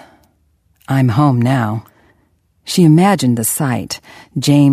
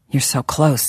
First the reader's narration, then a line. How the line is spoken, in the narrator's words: he murmured